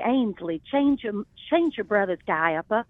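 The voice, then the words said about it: Slow, old-fashioned Southern Charleston accent. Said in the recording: “that old Southern accent. It wasn't twangy. It was that old Charleston accent... It was just that slow.”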